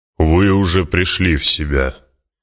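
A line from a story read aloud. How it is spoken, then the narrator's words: Deep booming bass. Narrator (Russian): прогудел густой бас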